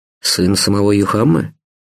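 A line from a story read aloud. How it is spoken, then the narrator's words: Shocked mutter. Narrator (Russian): пробормотал шокированный Стас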